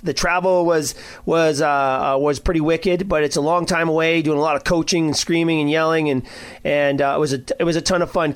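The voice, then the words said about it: Rough, hoarse voice. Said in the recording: “My voice is a little rough.”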